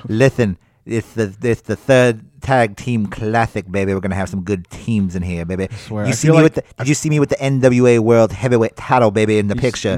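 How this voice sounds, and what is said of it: Dusty Rhodes impression. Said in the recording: “you do a Dusty Rhodes impersonation, you got to put like an echo on it”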